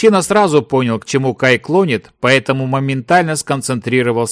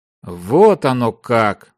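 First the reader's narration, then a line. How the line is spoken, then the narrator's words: Mutter. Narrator (Russian): пробормотал мечник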